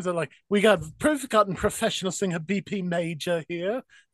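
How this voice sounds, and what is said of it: Put-on British accent. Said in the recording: “is that your Lisa Vanderpump impression? ... I just do a random British impression. ... It just sounded like David Bowie.”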